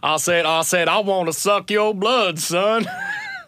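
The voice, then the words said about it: Foghorn Leghorn impression. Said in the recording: “your Foghorn Leghorn impression.”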